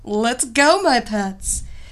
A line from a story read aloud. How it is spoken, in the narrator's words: Evilena laughed